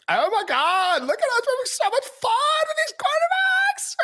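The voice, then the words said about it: Valley Girl voice. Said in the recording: “I don't know why I'm doing like a Valley Girl impersonation at this point, but I'm way too old to be doing that, but although it wasn't bad.”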